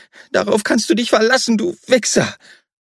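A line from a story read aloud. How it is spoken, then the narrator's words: Ugly laugh. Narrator (German): Er lachte hässlich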